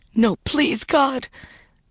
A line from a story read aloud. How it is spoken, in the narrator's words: Vicky choked back tears